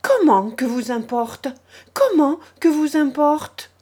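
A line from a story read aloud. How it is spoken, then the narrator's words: Exclaimed by many voices. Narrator (French): s'exclama-t-on autour de lui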